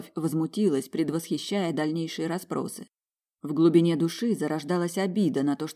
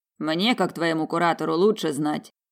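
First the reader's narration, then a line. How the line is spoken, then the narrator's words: Amused grunt. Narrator (Russian): хмыкнул магистр Дакре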